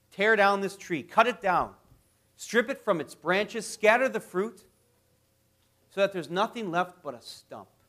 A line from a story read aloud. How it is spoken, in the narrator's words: a messenger of God came down and cried out